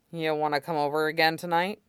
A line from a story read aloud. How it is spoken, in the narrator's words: Aizawa muttered, in as casual a tone as possible